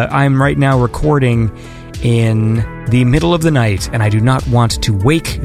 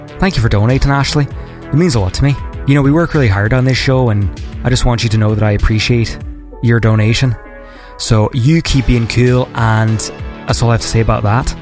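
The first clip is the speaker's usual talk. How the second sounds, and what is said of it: Put-on Irish accent. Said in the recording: “I should practice my Irish impression. ... Is that good? ... I'll work on it.”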